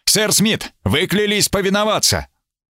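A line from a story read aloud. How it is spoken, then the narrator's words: Shouted. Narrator (Russian): Я крикнул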